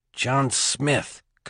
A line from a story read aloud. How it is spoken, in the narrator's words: Cabrillo said, sucking air through his teeth